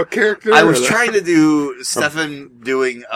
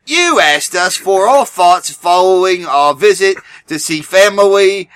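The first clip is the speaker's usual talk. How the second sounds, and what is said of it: Bad put-on British accent, slight lisp. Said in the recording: “read this in a kind of a British accent like his ... a bad British accent as an American ... It also had like a weird lisp to it.”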